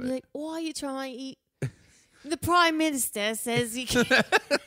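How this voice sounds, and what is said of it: Poor attempt at Australian accent. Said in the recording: “Is that your Australian accent? ... I literally can't do it. ... No, you can't do that at all.”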